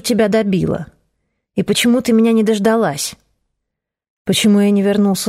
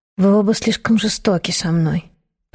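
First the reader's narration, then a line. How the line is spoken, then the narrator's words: Whispered. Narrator (Russian): прошептала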